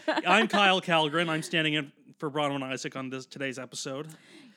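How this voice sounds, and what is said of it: Deep, congested baritone voice. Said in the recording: “I have a cold. ... I become a baritone when I have a cold.”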